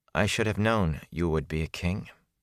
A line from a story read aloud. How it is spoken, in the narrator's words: she said quietly